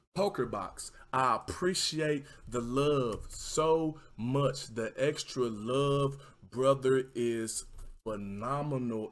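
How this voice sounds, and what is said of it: Southern American accent. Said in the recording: “Sometimes I have such hard times restraining my southern accent. I just let it rip”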